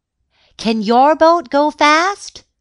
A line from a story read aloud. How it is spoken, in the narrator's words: shouted a man